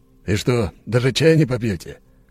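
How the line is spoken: Snorting scoff. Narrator (Russian): хмыкнул Андрей

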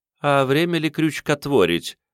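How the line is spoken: Dry questioning woman. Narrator (Russian): Поинтересовалась женщина сухо

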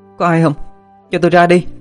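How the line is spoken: Woman calling out. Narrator (Vietnamese): cô la lên

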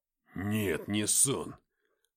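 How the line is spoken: Growl. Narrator (Russian): прорычал он

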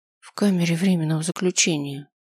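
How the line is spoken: Dejected, sinking voice. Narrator (Russian): упавшим голосом произнесла Шелли

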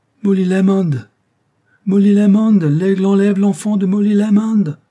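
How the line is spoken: Confused crowd shouting. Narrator (French): s'écrient confusément d'innombrables voix

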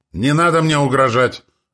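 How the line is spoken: Shouted after pause. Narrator (Russian): выкрикнул отец после секундной паузы

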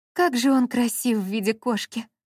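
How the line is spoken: Admiring sigh. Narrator (Russian): восхищенно вздохнула Брук Делмар

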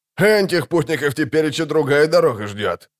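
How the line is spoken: Loud laughter. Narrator (Russian): захохотал второй

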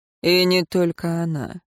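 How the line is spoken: Dry reply. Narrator (Russian): сухо ответил Тиен

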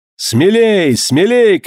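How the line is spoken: Young captain shouting. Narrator (Russian): кричал молодой капитан

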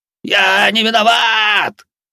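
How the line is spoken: Old man's frantic scream. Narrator (Russian): истошно заорал старик на полу

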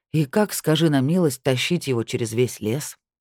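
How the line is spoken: Tired question. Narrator (Russian): устало спросил инспектор

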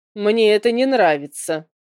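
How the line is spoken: Grumbling. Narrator (Russian): проворчал добрый Нейн

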